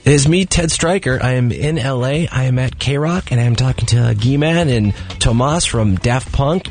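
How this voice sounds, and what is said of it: Quiet, whispery speaking voice. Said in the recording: “What are you, in a library? Why are you whispering ... you really do sound like you're trying to not wake someone up”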